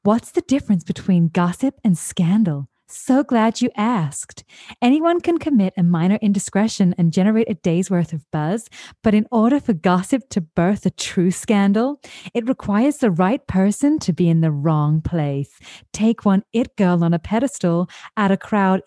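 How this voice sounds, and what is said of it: Kristen Bell impression as Gossip Girl narrator. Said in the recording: “my Kristen Bell impression. ... the opening Gossip Girl blast”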